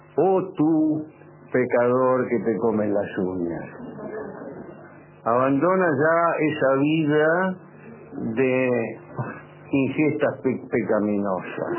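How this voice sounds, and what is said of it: Spooky voice from beyond the grave. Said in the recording (Spanish): “una voz de ultratumba”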